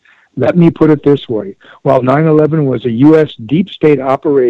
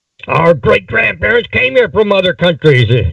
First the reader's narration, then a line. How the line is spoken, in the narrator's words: Nut President yelled